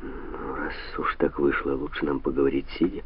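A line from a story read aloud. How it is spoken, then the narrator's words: Mumbling. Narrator (Russian): пробормотал Санта-Мария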